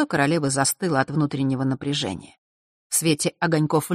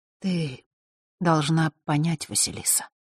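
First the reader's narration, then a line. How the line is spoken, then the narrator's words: Quiet. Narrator (Russian): тихо произнесла Белая Королева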